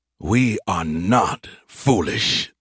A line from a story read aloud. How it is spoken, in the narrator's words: the voice spat